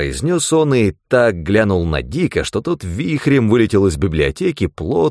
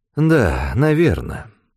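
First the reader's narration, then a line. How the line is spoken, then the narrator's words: Sighing. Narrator (Russian): вздохнул он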